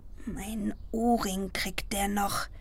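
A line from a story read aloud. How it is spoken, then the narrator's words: Muttering. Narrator (German): murmelte ich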